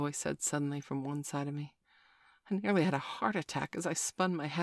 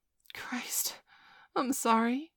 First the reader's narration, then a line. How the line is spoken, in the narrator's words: I sputtered